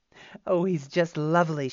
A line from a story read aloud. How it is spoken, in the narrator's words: she cried, laughing